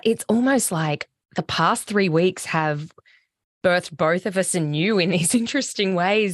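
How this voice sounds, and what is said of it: Hoarse, fading voice. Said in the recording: “I have been quite sick ... I'm losing my voice a lot”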